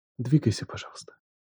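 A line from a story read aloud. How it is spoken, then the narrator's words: Whisper in ear. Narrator (Russian): прошептала она на ухо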